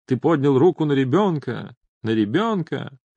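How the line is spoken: Dramatic shout. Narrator (Russian): крикнула папе драматическим голосом

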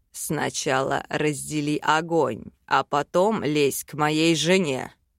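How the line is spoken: Growl. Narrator (Russian): прорычал Вел

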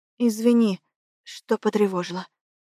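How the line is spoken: Quiet. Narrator (Russian): говорю негромко

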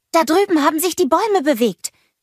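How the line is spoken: Called out. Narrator (German): rief Anna

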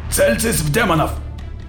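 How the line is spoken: Barked command. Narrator (Russian): рявкнул майор

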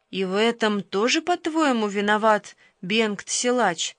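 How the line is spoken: Perfectly calm question. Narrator (Russian): Совершенно спокойно спросил пастор

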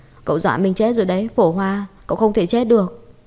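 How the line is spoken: Wailing, sobbing scream. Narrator (Vietnamese): Quyền Quyền khóc thất thanh, miệng gào lên

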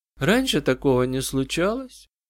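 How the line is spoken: Girl's quiet lifeless voice. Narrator (Russian): Девочка говорила тихо, безжизненным голосом, словно вспоминая что-то давно прошедшее

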